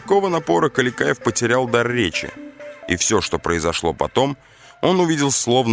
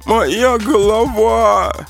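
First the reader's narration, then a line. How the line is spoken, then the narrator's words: Pained moan. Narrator (Russian): простонал Адавар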